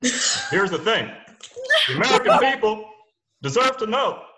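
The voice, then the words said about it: Imitates another person's voice. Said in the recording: “It was a great impression ... I'm going to send this to Obama and see what he thinks”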